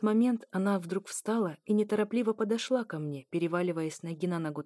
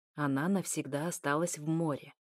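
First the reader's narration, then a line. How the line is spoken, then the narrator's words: Quiet slightly hoarse woman. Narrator (Russian): тихо и немного хрипло ответила женщина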